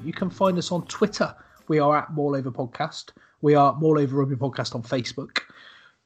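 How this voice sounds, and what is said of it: West Country English accent. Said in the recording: “all the West Country accent.”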